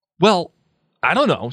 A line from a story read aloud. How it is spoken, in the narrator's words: said Harry rather angrily